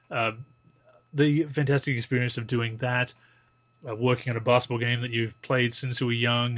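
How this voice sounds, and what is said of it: Non-American English accent. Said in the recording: “if you can't tell by our accents, we're not American”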